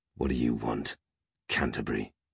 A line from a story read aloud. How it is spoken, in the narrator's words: growled Peg